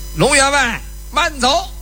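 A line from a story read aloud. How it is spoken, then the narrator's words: Distant shout from woods. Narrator (Chinese): 树林子里边又有人喊了一声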